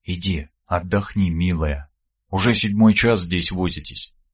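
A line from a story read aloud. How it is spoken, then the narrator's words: Whisper in ear. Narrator (Russian): прошептал я ей на ухо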